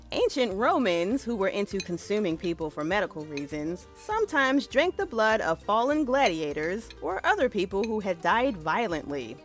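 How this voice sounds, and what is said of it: Game show host voice. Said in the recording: “doing my game show voice”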